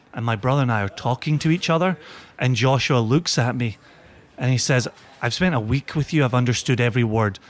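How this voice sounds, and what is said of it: Slowed, Americanized Scottish accent. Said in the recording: “I've got this slowed down American version of my Scottish accent.”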